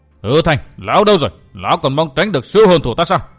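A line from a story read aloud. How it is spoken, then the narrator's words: Relentless yelling. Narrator (Vietnamese): Kha Nhân vẫn không ngừng gào lên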